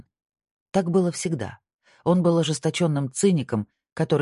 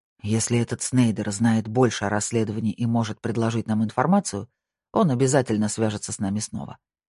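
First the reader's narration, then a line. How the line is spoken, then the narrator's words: Calmer tone. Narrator (Russian): сказал Пуласки уже более спокойным тоном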